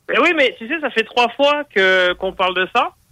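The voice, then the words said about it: European French accent. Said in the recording (French): “ton accent d'Europe”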